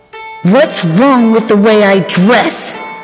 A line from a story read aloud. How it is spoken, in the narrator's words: Her shout echoed